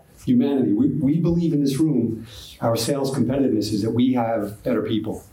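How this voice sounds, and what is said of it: Bronx New York accent. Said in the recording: “my Bronx, New York accent”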